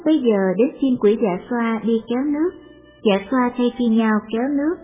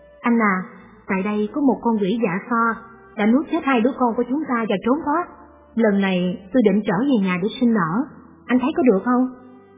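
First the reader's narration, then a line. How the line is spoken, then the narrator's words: Intimate murmur. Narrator (Vietnamese): cô vợ trẻ thủ thỉ với chồng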